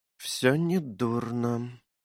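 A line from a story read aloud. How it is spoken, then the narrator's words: Muttering under breath. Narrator (Russian): себе под нос пробормотала она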